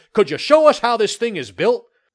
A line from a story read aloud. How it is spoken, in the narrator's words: they shouted many questions at us